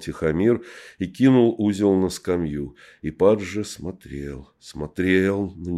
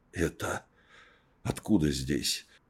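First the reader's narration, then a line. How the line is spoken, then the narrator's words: Hoarse. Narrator (Russian): хрипло сказал он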